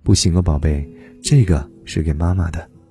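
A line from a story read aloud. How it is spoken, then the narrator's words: Gentle but firm. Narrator (Chinese): 爸爸却温柔而坚定的回答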